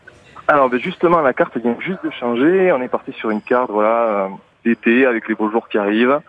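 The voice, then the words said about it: Regional accent from southwest France. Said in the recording (French): “rien qu'avec votre accent, on sent qu'il va y avoir des choses d'ailleurs ... orientée sur le sud-ouest par mes origines”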